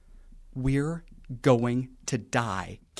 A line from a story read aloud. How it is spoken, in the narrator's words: Gary mouthed slowly